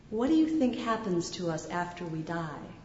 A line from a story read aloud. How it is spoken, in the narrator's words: he asked, quietly